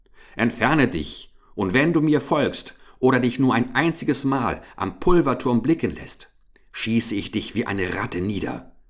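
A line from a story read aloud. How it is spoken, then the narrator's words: Calling out. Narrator (German): rief Richard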